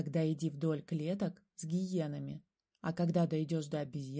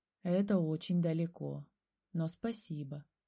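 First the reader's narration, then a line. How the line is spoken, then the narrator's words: Sighing bear. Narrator (Russian): медведь вздохнул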